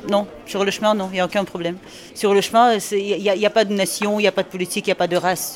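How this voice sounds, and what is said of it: Slight Belgian accent. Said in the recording (French): “vous avez un petit accent belge”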